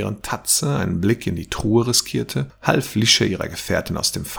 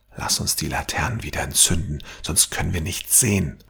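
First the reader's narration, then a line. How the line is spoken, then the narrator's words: Murmured. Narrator (German): raunte Tatze seinen Gefährten zu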